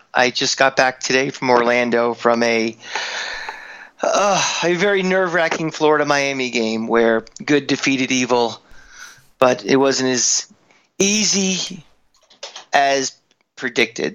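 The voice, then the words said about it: Worn-out, strained voice. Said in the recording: “My voice is a little shot.”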